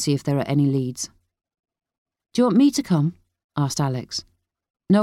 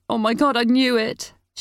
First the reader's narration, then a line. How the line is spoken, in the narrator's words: she cried out